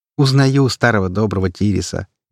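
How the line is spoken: Cheerful laughing. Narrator (Russian): весело рассмеялась ведьма

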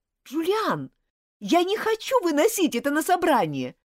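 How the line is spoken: Shouting. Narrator (Russian): крикнула Элизабет

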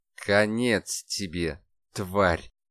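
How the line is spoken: Hoarse rasp. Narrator (Russian): прохрипел архангел

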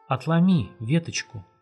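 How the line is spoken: Soft whisper. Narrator (Russian): снова тихо прошептал кто-то

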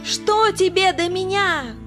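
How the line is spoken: Shrieking. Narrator (Russian): женщина опять завизжала

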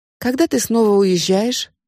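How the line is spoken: Plain question. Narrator (Russian): спросила Нита

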